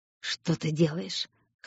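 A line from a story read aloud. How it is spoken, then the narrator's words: Hoarse question. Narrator (Russian): хрипло спросил Аид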